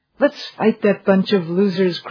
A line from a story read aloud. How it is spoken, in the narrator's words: cried the pundits on TV